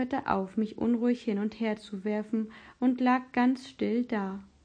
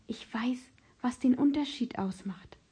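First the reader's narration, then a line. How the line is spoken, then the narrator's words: Whispering. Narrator (German): flüsterte ich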